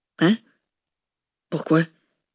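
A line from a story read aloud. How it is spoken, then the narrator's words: Exhausted breathless whisper. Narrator (French): souffla Tom, qui avait l'impression qu'une carriole et quelques chevaux lui étaient passés sur le corps tant il était épuisé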